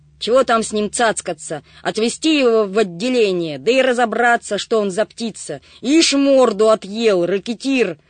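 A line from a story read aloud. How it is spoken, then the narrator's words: Shouted out. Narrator (Russian): выкрикнул он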